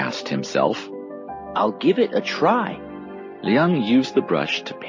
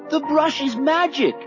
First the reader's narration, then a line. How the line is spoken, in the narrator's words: Liang cried